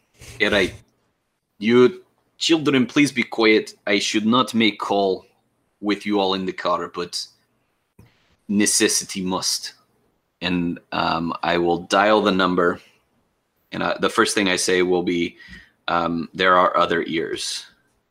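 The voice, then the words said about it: Bad put-on Russian accent. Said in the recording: “Terrible Russian Accent ... I can do a drunk party girl, but not a Russian gangster.”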